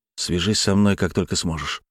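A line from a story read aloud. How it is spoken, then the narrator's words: Dejected request. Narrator (Russian): упавшим голосом попросил Глеб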